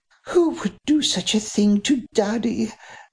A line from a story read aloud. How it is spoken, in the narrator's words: breathed